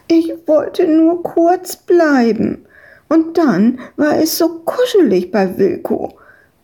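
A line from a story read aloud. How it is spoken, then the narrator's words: Whining. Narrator (German): jammerte Madita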